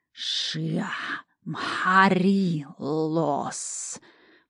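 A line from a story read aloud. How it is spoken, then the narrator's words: Hiss. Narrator (Russian): прошипел охранник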